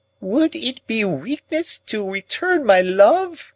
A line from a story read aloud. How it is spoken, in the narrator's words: exclaimed Miss Havisham